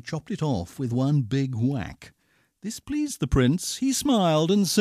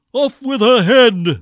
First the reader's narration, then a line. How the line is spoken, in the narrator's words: the prince roared back